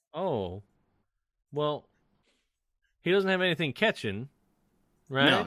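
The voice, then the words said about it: Slight put-on Southern accent. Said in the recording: “I started using a little bit of a southern accent entirely by accident.”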